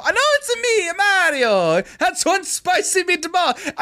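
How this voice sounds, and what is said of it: Exaggerated stereotyped Italian accent. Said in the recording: “outrageous fucking Italian accent ... The original Mario ... Italian stereotype gobble ghoul speak”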